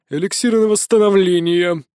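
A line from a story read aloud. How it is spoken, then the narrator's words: Healer's grumble. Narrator (Russian): пробурчал лекарь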